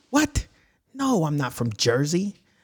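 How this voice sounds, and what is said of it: Put-on New York-style accent. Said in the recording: “You're from Jersey? ... Bronx.”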